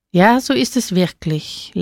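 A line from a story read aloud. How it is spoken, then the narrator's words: Drunken slurring. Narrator (German): lallte er mit ungelenkter Zunge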